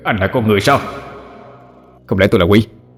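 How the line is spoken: Cold. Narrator (Vietnamese): Ngô Hoài Sinh lạnh lùng đáp

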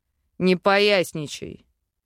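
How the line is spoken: Growling. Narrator (Russian): рыкнул демон

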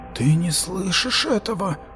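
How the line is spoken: Moaned. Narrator (Russian): простонал Матиас

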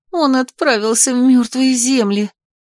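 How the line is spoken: Moaning. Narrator (Russian): простонала я

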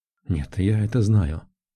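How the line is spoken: Quiet answer, mother. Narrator (Russian): ответила тихо маман

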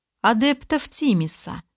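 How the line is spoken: Calm explanation. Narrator (Russian): как-то спокойно пояснил незнакомец

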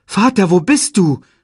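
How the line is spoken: Called out. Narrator (German): rief er

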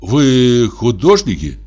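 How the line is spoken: Forced out, strained. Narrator (Russian): наконец выдавил он

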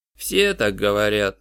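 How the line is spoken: Grumbled. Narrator (Russian): проворчал Пью

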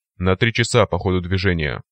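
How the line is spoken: Growling. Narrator (Russian): прорычал Копия

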